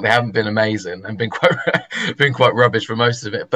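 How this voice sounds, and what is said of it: London accent. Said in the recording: “being from London, it's just, you know, because everyone usually hears my accent and goes, oh, we Arsenal or Tottenham”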